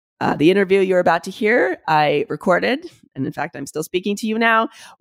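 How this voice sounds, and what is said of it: Sick, ill-sounding voice. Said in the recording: “you can hear it in my voice ... I have COVID ... suffering pretty acutely from a first-time COVID infection”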